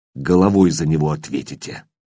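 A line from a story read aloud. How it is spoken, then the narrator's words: Quiet but clear. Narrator (Russian): Сомов говорил тихо, но четко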